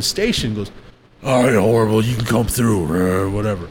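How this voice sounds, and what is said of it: Bad imitation of another person's voice. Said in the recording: “my horrible Pooh Hef impersonation”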